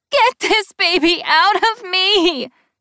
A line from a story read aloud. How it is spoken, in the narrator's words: she screams